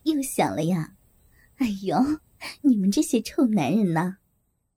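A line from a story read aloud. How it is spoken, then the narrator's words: Flirtatious laughing. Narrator (Chinese): 梅姐浪笑着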